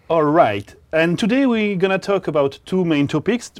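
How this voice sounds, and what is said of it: French-accented English. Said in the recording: “a strange accent from foreign countries ... He's from the foreign country of France.”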